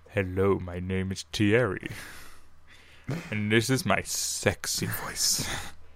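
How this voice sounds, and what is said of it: Deep, exaggerated sexy voice. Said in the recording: “He's talking in his, as he calls it, his deep sexy voice.”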